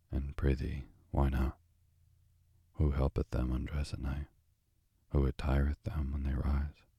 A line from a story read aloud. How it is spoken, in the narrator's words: The little prince, gravely, said